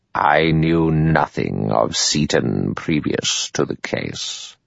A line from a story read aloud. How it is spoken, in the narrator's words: In a clear, cold voice, the judge said